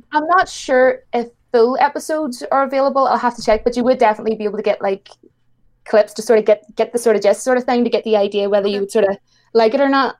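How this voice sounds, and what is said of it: Irish accent. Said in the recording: “everyone in the chat is loving your accent ... Irish ... is my accent that harsh?”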